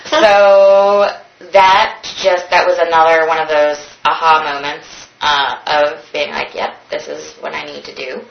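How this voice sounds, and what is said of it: Pleasant accent. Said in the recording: “such a wonderful accent”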